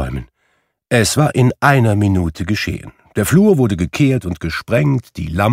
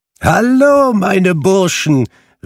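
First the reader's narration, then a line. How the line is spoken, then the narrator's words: Calling out. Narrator (German): rief Fezziwig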